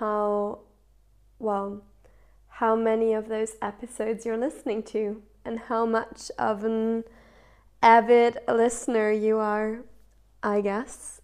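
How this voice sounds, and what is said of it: Voice affected by a cold. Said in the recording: “maybe you can still hear it in my voice. I have been caught by a cold”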